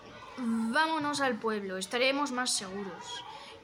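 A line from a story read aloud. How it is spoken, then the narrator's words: Old rough shepherd muttering. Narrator (Spanish): Un pastor viejo y rudo masculló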